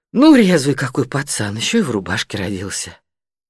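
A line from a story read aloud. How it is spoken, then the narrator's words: Softened voice. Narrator (Russian): Люда сказала размягченным голосом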